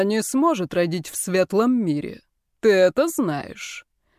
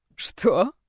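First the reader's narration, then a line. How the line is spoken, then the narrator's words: Laughing. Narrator (Russian): Брайан рассмеялся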